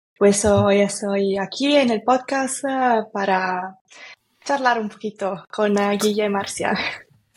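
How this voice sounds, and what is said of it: Italian accent speaking Spanish. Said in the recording (Spanish): “soy italiana ... Igual se siente para el acento, ¿no? ... un poco.”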